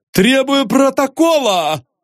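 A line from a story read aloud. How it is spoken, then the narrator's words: Pompous shout. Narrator (Russian): с пафосом закричал Остап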